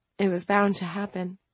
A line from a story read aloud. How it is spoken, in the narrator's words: Jet said in a small, broken voice